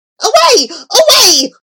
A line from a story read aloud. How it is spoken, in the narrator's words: it cried